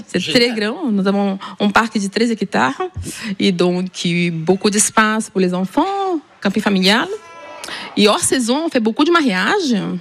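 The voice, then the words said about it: Slight Ariège regional French accent. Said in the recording (French): “Il vient d'où ce petit accent? ... De l'Ariège.”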